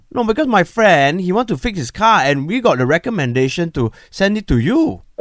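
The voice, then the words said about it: Put-on foreign accent. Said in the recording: “Accent.”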